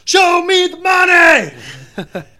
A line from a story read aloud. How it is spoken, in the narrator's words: shouted out like a jackass